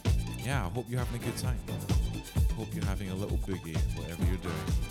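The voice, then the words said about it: Put-on radio presenter voice. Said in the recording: “Doing my radio voice.”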